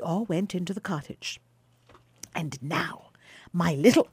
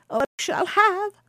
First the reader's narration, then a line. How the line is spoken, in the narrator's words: cried Baucis